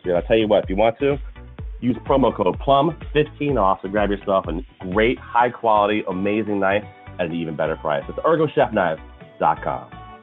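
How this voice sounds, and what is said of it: Announcer-style radio voice. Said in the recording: “That was my radio voice. How was that? Was it terrible? I feel like it was terrible.”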